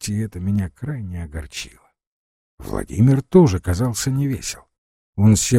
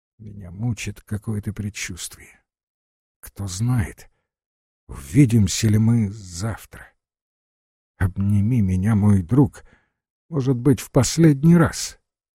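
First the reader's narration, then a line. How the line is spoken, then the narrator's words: Moved, emotional voice. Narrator (Russian): сказал растроганным голосом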